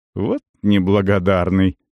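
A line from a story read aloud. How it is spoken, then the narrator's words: Snorting. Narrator (Russian): хмыкнул Кирк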